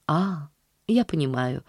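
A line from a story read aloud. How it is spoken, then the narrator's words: Very soft reply. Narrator (Russian): ответила мисс Полли очень мягко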